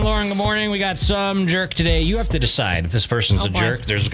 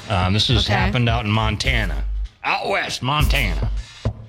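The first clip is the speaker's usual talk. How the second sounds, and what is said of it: Put-on Western rancher accent. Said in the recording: “Why am I doing a rancher? ... That was quite the accent.”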